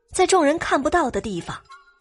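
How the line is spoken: Choked, tearful voice. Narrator (Chinese): 董小希抿着嘴，哽咽着说道

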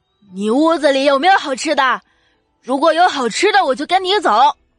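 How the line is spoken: Loud question. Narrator (Chinese): 疯婆子 大声的问道

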